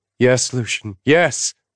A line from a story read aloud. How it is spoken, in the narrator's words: she cried brokenly